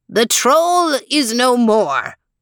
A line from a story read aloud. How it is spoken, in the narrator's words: shouted Falso